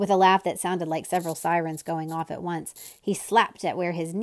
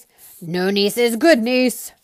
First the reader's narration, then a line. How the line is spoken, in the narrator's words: roared the den again